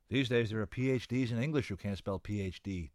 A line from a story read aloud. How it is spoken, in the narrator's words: Tanya Latimer said gloomily